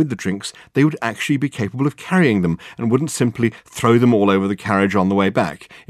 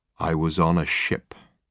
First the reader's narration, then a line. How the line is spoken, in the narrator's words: Michael Wenton Weeks ... said in a low voice